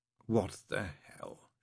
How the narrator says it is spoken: she said quietly

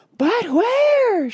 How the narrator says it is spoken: shrieked Mrs

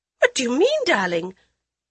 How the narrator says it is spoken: Suspicion and nervousness made Lady Modi's voice squeak

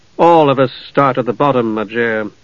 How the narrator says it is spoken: Steele said gravely

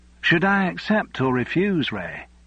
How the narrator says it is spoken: she asked in her broad Yorkshire accent

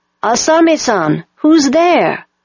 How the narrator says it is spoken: a voice called out

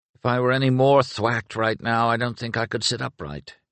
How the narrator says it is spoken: Inglis sighed

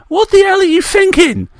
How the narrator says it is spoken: Reeve shouted

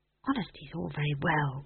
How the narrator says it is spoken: whispered McGrath wretchedly

